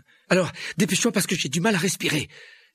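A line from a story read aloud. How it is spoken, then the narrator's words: Breathless, chest squeezed. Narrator (French): dit Harry d'une voix haletante tandis que la plante lui étreignait la poitrine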